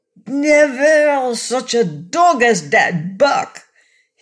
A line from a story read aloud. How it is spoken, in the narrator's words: he cried